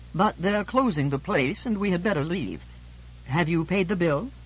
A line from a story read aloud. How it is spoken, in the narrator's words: George let a large, vinous sigh bubble forth from the depths of what he considers his soul, and said